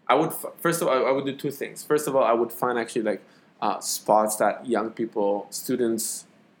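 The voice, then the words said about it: Israeli-accented English. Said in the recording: “my Israeli accent is like fucking yeah. It's leaking in.”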